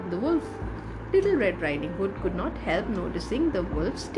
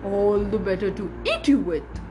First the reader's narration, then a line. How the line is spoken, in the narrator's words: snapped the wolf